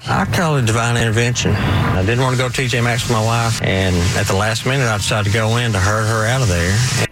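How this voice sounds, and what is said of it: Noticeable regional accent. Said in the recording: “I was not expecting an accent. ... you know how much I love an accent.”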